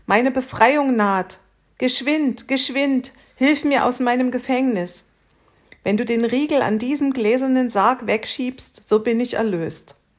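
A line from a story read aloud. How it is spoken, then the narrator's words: Called out. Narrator (German): rief sie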